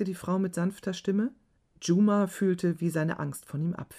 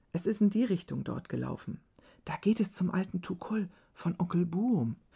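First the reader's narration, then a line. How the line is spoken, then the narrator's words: Whispered. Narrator (German): flüsterte Niamal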